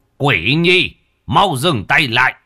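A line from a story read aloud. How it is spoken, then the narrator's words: Shouting. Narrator (Vietnamese): Thầy ba miệng hét lên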